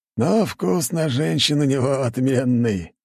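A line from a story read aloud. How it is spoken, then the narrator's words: Old man guffawing. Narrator (Russian): хохотал старик, чувствуя, что не такой уж он и старый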